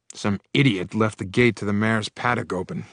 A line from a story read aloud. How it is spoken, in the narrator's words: growled my uncle